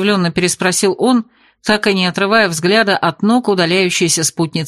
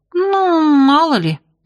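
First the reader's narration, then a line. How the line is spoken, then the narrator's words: Uncertain. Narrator (Russian): неуверенно сказала я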